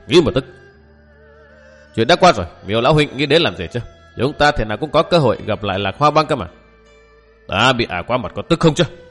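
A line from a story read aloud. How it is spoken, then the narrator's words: Resentful old man. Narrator (Vietnamese): Lão đặt chén xuống bàn hậm hực nói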